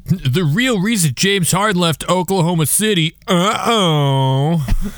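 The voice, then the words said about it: Imitates a TMZ gossip reporter. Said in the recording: “my TMZ impression ... That was actually pretty good”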